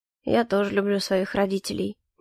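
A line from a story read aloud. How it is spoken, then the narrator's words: Unexpectedly very quiet. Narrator (Russian): неожиданно произнес он очень тихо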